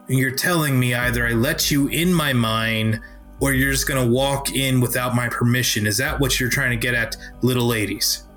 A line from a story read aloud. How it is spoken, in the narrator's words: start to growl a little bit